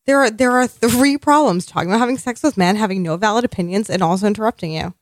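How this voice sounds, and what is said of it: Nasal voice. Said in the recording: “you was nasally... My voice is just nasally in general.”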